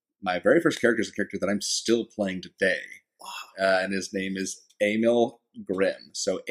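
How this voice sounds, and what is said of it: Usual voice. Nothing is said of it.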